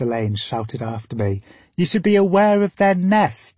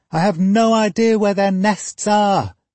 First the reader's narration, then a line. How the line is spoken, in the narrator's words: I yelled back